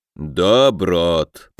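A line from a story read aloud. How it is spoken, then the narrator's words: Booming drone. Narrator (Russian): прогудел Викула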